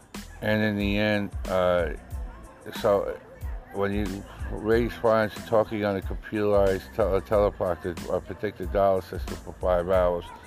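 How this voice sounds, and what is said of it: Strained, fading voice. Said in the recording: “my voice has been going ... I've been losing my voice”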